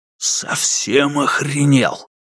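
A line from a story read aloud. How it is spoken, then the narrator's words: Menacing whisper. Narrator (Russian): Братец Хук понизил голос до угрожающего шепота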